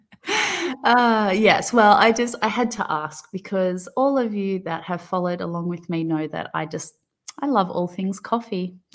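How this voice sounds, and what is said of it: Thick Australian accent. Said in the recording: “I say that in my thick Aussie accent”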